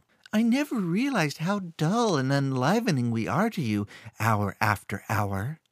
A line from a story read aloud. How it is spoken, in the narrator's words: Theta say, in an assumed falsetto